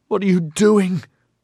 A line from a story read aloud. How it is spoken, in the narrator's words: Oberon bawled